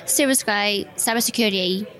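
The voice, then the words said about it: Put-on British accent. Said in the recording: “British accent, let's go.”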